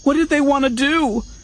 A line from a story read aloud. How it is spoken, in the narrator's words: Fanry cried, shrinking back from the bladed thing